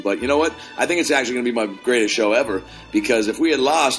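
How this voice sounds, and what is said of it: Hoarse, worn-out voice. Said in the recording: “my voice is shot from expending so much love and emotion”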